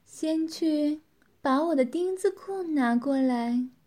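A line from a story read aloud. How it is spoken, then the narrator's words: Woman laughing with satisfaction. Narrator (Chinese): 女子满意的笑道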